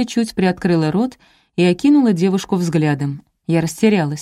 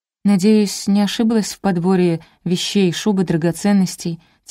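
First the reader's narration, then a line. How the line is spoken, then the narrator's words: Quiet female guest. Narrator (Russian): тихо произнесла гостья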